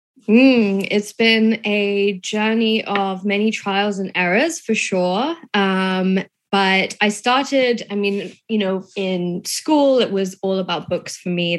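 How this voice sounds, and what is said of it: English accent. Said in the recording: “she's from England, as you can probably tell from her voice.”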